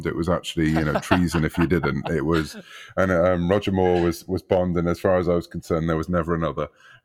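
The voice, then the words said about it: British accent. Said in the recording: “Growing up in the UK, as people might gather from my accent”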